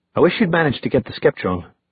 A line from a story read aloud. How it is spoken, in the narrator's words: Alec said in a subdued voice